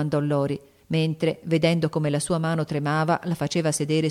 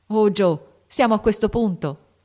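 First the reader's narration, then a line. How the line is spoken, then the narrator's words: Frightened shout. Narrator (Italian): gridò Lori col volto spaventato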